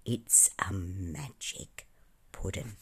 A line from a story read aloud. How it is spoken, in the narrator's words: the penguin leaned across to Bunyip Bluegum and said in a low voice